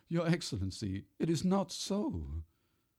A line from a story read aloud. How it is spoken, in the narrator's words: the man sobbed